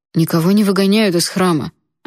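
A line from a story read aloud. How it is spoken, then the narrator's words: Offended objection. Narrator (Russian): обиженно возразил Джун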